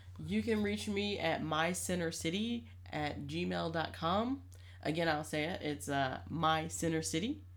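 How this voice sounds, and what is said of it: Northeastern US accent. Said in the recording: “My northeast accent is kicking in.”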